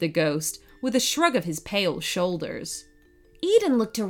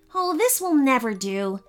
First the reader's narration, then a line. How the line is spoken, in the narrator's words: she said crossly